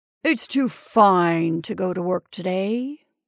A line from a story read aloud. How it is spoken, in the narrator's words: he said lazily